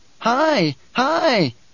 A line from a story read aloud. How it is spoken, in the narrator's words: Bijah's cried